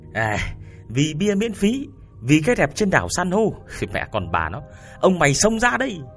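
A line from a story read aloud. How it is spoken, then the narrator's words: Shouted. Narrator (Vietnamese): Tuyền Béo … hét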